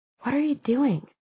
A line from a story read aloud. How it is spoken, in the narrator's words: she whispered